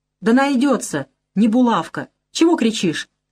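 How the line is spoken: Angry interruption. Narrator (Russian): Сердито останавливает

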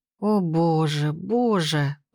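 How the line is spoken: Moaning. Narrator (Russian): простонала я

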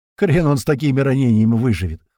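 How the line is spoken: Snorting. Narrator (Russian): хмыкнул док

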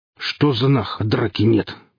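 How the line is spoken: Boatswain's deep bass. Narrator (Russian): пробасил появившийся боцман

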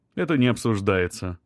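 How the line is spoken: Categorical, firm tone. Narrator (Russian): сказал безапелляционным тоном

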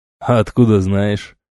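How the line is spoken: Mocking question. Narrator (Russian): насмешливо спросил воин

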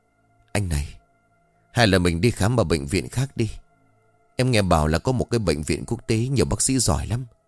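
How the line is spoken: Sighing. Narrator (Vietnamese): Yến liền thở dài

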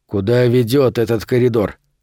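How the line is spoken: Plain question. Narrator (Russian): спросил он Томми

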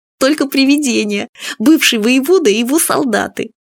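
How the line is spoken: Giggling. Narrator (Russian): Фадейка хихикнул

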